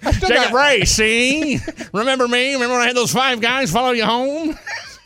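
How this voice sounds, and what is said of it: 1940s gangster voice. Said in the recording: “My 40s gangster talk.”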